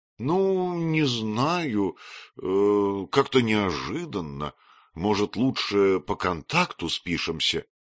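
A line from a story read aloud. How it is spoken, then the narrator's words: Timid suggestion. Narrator (Russian): предложила она робко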